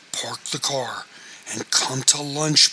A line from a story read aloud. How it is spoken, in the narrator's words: pleaded his father